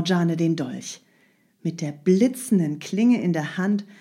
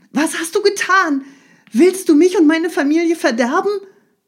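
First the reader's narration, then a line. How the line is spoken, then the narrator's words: Calling out. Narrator (German): rief Ali Baba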